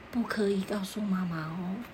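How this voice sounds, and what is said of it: Quiet, hushed voice. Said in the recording (Chinese): “小声的跟他说”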